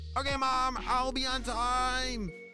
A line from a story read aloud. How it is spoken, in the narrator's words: shouted